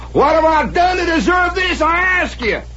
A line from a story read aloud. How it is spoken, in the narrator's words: hollering